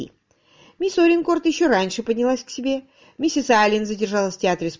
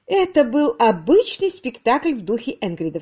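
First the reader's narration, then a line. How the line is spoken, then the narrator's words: Plain. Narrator (Russian): сказала она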